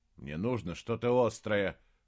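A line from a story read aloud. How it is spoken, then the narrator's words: Grumbling. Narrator (Russian): проворчал он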